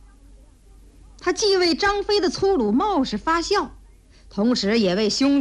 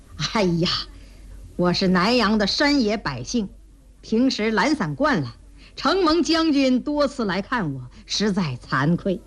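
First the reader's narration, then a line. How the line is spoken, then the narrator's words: Slight modest smile. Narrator (Chinese): 诸葛亮微微一笑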